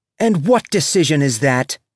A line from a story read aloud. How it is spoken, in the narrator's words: She snapped